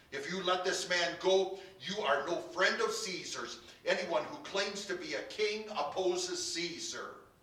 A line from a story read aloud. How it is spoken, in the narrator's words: the Jews kept shouting